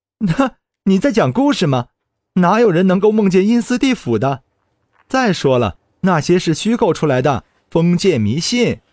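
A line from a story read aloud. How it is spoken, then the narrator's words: Laughing. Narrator (Chinese): 鲁涛居然笑着对我说道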